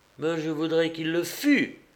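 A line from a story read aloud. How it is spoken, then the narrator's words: Young woman crying out. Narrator (French): s'écria la jeune fille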